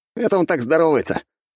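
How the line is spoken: Young man's snort. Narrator (Russian): хмыкнул молодой человек

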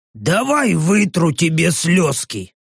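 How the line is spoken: Displeased growling orc. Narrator (Russian): Недовольно рыкнув, орк сказал

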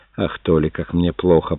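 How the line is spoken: Muttered. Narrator (Russian): пробормотала Джетамио

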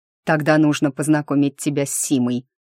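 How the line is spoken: Angry remark. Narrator (Russian): зло бросил Ник

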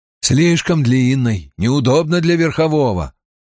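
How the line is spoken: Dismissive scoff. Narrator (Russian): пренебрежительно хмыкнул Массимо

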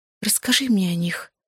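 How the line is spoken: Quiet request. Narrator (Russian): тихо попросила я

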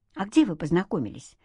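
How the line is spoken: Plain question. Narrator (Russian): спросил Антон

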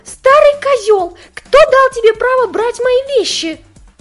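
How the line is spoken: Yelling. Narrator (Russian): заорала Рэй

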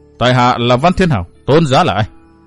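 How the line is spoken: Furious, cold. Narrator (Vietnamese): nộ hỏa xung thiên, nói giọng lạnh lùng

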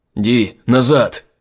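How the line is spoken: Shouting. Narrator (Russian): крикнул он

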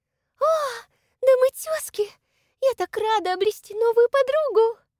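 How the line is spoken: Thin sing-song voice. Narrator (Russian): Тонким голосом пропела высокая, нескладная девица

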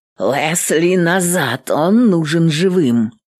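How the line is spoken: Hoarse wheeze. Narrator (Russian): Прохрипела Эвелин

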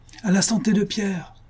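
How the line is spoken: Crowd shouting together. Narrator (French): s'écrièrent en masse les invalides

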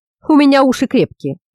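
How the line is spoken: Deep rumbling voice. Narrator (Russian): прогудел Римбун

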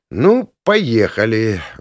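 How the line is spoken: Sighed. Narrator (Russian): вздохнул я

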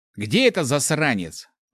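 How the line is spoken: Growled. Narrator (Russian): рыкнул паладин

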